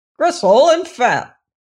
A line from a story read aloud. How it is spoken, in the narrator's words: he cried